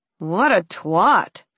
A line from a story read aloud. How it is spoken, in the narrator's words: Carla muttered